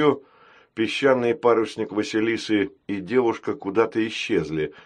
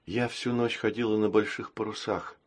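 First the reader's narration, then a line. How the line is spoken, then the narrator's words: Tired. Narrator (Russian): устало сказала она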